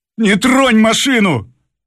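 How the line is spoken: Shouted. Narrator (Russian): крикнул шофер

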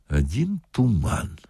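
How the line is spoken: Said quietly. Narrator (Russian): сказал милиционер тихо

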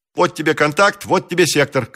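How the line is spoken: Shouted. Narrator (Russian): крикнул он

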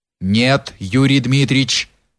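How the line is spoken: Resolute voice, Cossack. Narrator (Russian): отвечал решительным голосом запорожец

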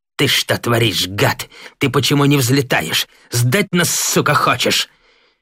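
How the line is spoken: Through gritted teeth. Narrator (Russian): Девятаев сквозь зубы бросил Кривоногову

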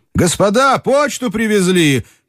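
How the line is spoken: Excited shout through door. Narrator (Russian): крикнул в дверь взволнованный голос

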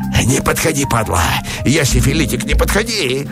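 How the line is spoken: Frightened shriek. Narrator (Russian): Взвизгнул парень, исказив рот не то судорогой испуга

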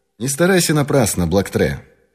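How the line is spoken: Calm. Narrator (Russian): спокойно сказал Пинкертон

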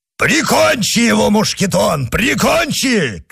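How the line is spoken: Shout. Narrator (Russian): крикнул Портос

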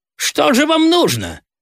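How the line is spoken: Snapping retort. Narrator (Russian): огрызнулся на него председатель

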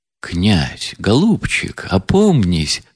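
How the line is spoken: Horrified whisper. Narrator (Russian): с ужасом шепнул генерал

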